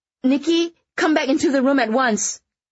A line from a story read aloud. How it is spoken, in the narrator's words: Ling Jie yelled